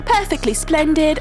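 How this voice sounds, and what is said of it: Put-on British accent. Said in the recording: “we should probably speak in a British accent ... Big British UK accent.”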